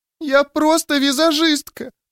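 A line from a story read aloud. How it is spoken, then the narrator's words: Sobbing girl. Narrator (Russian): продолжала всхлипывать девчонка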